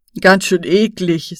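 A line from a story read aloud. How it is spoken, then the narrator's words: Said, laughing. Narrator (German): sagte Kevin und lachte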